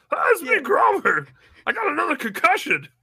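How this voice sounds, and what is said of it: Grover-style Muppet character voice. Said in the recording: “Can you do an impression? ... Grover.”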